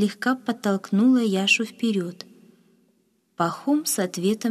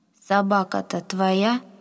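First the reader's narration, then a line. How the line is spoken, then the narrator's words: Plain. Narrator (Russian): спросил он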